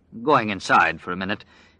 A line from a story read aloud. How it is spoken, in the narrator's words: Glenn said thickly